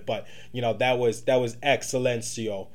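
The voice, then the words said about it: Bad put-on Italian accent. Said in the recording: “my best Italian impersonation. Okay, so I get it was bad”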